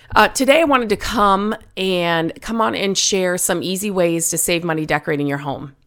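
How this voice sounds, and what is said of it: Slightly hoarse voice. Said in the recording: “if I sound a little hoarse ... I'm hoping I can get through this without coughing”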